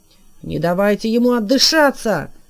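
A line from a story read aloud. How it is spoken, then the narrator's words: Shout. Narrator (Russian): крикнул Лухта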